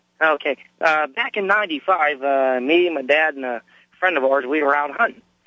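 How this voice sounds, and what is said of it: Slightly hoarse voice. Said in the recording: “I'm just getting over a cold right now, so if I sound a little hoarse”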